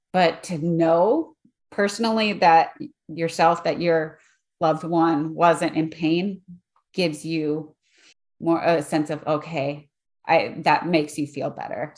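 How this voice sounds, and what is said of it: Teary, emotional voice. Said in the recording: “I'm getting a little teary. ... You're getting yourself emotional.”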